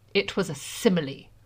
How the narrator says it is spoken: Draco said stiffly

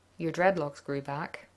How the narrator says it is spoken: John murmured

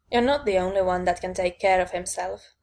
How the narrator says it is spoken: I said dryly

